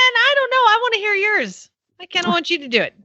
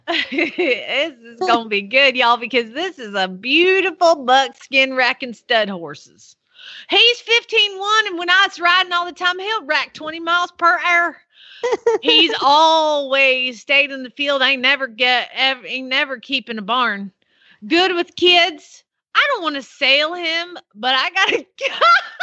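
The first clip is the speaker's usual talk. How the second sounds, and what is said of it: Put-on Southern American accent. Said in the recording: “your Southern accent is so much better than mine ... I love your Southern accent”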